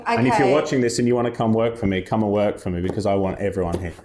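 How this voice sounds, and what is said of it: Australian accent. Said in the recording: “I also love the way you say Manchester ... It's my Australian accent.”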